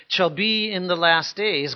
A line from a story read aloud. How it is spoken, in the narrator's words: God says